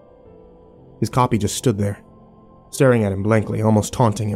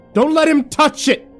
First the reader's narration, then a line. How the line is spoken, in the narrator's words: Grillo shouted at us from behind